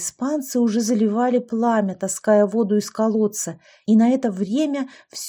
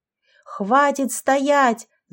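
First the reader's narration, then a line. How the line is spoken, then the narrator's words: Yelling. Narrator (Russian): заорал Рома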